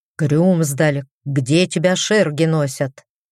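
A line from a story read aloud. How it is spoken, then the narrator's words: Stern. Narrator (Russian): строго сказал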